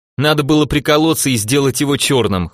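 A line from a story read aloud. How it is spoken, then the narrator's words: Laughing. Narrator (Russian): хохотнул первый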